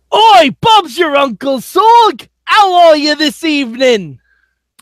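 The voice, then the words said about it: Put-on Cockney British accent. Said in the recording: “That actually isn't even my good British accent ... it was Cockney”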